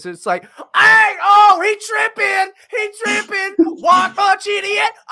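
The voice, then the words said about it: Over-the-top melodramatic livestreamer imitation. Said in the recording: “Your imitation was exactly the kind of live stream guys that I see them watching, like where everything is over the top, very melodramatic, very they talk like hysterical high school girls”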